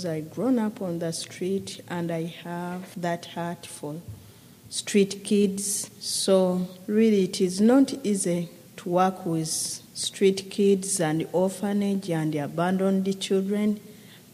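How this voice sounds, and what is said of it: Ugandan English accent. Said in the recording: “accent, she is a Ugandan lady ... I enjoy your accent.”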